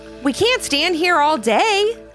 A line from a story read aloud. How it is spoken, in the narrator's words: Grandpa Dale finally called out